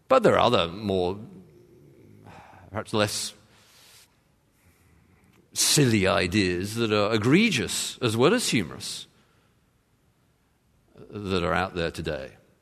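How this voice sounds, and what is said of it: English accent. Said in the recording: “I knew as soon as I heard your English accent”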